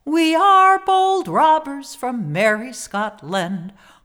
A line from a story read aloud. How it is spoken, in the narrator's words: cried Stewart